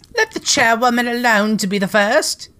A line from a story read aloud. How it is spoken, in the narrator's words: cried